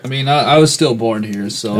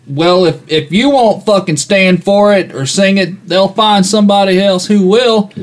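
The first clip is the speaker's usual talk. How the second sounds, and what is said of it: Put-on Southern accent. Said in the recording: “I guess that was a Southern character.”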